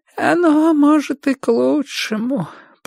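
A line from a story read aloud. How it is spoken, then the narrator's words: Thin, rustling old voice. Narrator (Russian): прошелестела она тонким старческим голоском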